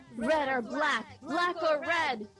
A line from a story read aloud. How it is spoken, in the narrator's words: With a thunderous roar, she yelled